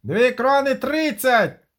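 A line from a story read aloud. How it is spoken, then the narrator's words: Shrieking. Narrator (Ukrainian): заверещало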